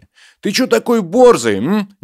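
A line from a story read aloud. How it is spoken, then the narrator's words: Hesitant shout, young man. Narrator (Russian): неуверенно выкрикнул из-за плеча здоровяка менее крепкий юноша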